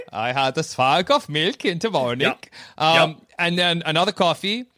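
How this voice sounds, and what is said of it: Speaks with a regional accent. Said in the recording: “my accent”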